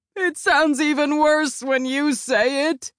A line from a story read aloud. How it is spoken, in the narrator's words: sobs